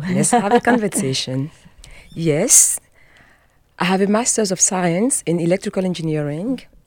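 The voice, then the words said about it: French-accented English. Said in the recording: “when you listen to her accent... The accent comes from speaking French.”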